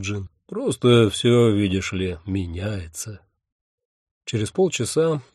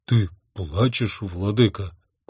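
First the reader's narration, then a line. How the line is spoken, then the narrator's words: Almost frightened question. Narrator (Russian): почти испуганно спросил Джин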